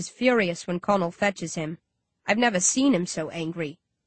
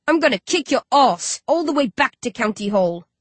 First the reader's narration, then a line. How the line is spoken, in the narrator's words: he snarls